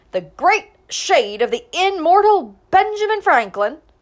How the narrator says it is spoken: shouted

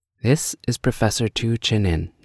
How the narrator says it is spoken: said he

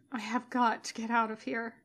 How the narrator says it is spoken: he mumbles

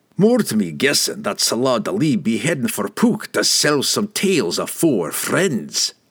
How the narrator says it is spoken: Brunner growled

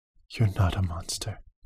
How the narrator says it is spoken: whispered

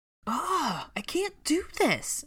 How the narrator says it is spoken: she exclaimed suddenly

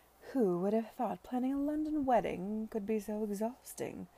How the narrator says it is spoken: she said merrily

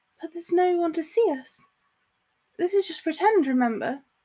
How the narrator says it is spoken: she murmured

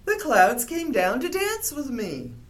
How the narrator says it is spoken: cried

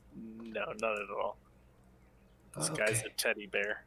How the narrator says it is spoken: Finley lets out a chuckle and says

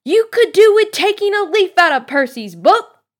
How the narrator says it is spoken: yelled Mrs

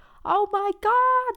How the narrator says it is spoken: squealed

